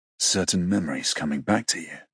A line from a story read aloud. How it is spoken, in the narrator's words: a low, gravelly voice murmurs